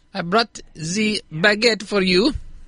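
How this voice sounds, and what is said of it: Put-on French accent. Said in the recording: “Is that a French accent?”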